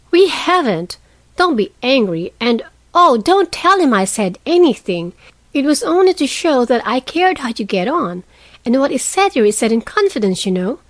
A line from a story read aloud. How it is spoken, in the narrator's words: cried Meg, much alarmed at the thought of what might follow from her careless speech